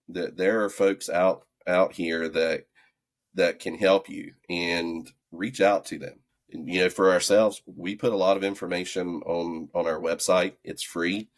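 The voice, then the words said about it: Southern drawl. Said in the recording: “my Southern Drawl”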